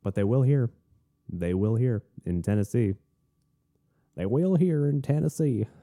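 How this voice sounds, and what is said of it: Attempted Southern US accent, poorly done. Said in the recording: “I'm practicing my southern accent. Nah, that was bad.”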